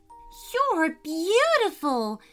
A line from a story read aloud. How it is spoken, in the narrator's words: exclaimed